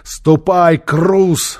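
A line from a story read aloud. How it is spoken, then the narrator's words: Stern shout. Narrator (Russian): строго крикнул Нефер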